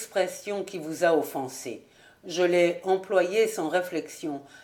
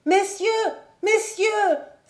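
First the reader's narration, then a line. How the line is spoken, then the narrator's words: Child exclaiming. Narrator (French): s'écriait l'enfant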